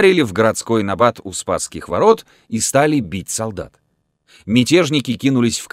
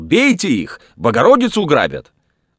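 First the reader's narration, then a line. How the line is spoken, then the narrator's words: Crowd shouting. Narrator (Russian): Народ, увидя это, закричал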